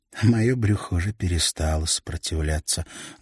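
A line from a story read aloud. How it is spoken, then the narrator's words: Sad smile. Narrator (Russian): грустно улыбнулась Ханна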